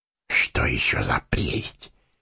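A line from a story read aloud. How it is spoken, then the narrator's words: Whisper in ear. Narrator (Russian): шепнул Сэмми на ухо Фродо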